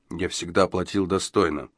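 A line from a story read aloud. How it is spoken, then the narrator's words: Low-voiced repeating. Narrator (Russian): вполголоса повторял он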